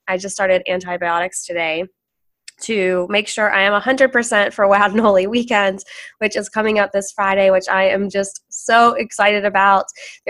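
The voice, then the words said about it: Froggy, hoarse sick voice. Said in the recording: “excuse my voice ... I have been sick all weekend ... hoping that my voice would sound a little less froggy ... I feel a whole lot better than I sound”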